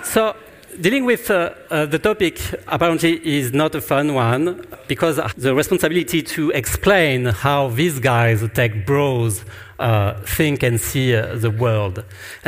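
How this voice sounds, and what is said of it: French accent in English. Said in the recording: “I'm French and I'm going to speak in English. And actually, I guess my accent is even worse than Emmanuel Macron is.”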